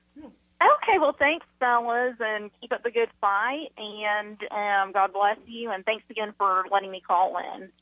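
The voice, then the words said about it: Female Southern American accent. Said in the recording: “Always great to hear a female Southern accent.”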